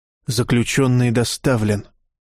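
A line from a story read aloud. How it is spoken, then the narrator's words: Very quiet mutter. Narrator (Russian): пробормотал гвоздь очень тихо, так, чтобы никто не услышал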